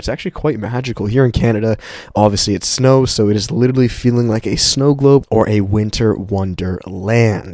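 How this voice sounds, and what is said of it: Raspy, cracky voice. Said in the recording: “my voice is a little like raspy, are kind of cracky, it's just because I'm getting over a little bit of a cold”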